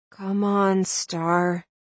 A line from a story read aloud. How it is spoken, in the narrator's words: I urged quietly